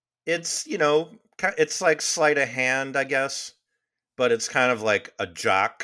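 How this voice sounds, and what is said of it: Usual voice. Nothing is said of it.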